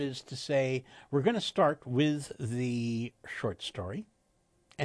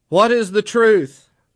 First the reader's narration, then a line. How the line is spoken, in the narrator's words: the Hungan shouted over the drums